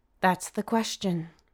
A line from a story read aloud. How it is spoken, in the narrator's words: Mom sighs